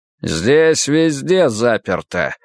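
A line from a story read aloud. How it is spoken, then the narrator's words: Host's loud announcement. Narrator (Russian): громко сообщил хозяин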